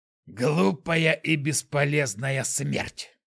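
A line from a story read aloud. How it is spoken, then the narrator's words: Old man hissing. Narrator (Russian): прошипел старик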